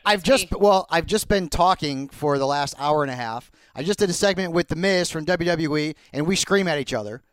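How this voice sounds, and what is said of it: Hoarse voice. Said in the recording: “you sound hoarse ... the voice is a little hoarse right now”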